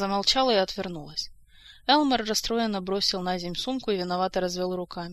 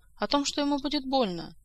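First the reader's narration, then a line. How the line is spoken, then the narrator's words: Quiet young woman. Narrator (Russian): тихо сказала девушка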